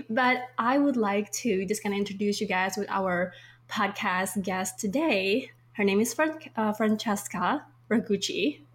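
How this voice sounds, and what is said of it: Congested, sick-sounding voice. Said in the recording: “apologize on my voice because I'm still recovering from this crazy flu ... my voice is a little bit congested and not as usual”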